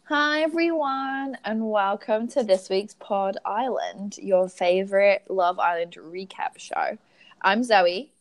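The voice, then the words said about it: English accent with American influence. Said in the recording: “from Suffolk in England... I've lived in the US for the past 3 years, which is why my accent is like this”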